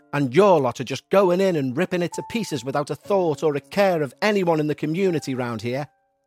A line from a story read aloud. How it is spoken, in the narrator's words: she snapped